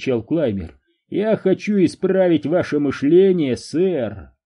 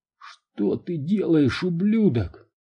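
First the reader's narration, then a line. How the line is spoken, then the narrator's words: Choked convulsive wheezing. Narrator (Russian): хотел это сказать, но не мог толком ни дышать, ни пошевелить губами, из его глотки вырывались лишь судорожные хрипы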